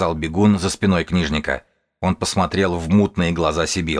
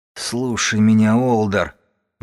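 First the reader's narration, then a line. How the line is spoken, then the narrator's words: Hoarse, dry-throated. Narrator (Russian): голос у нее сипел, звуки с трудом пробивались через пересохшее горло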